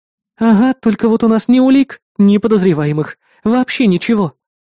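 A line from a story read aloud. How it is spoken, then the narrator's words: Sighing. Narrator (Russian): вздохнула напарница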